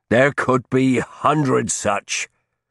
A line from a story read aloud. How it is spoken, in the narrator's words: Harsnett said irritably